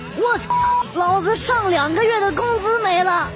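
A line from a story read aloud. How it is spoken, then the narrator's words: Pained male howl. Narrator (Chinese): 旁边男的嗷的一声惨叫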